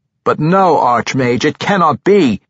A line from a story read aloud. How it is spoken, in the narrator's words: the young warrior shouted in frustration